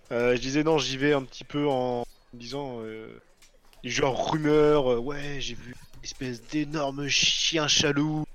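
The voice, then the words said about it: Accent turning j into ch. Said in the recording (French): “avec ton accent, ça fait juste un chien qui est jaloux de quelqu'un quoi. Un chien chaloux.”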